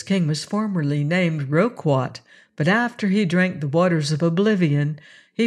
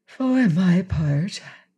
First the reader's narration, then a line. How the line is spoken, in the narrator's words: said Princess Ozga of Roseland with a gentle sigh